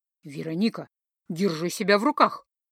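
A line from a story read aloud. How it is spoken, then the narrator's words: Hissing. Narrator (Russian): зашипела Лиса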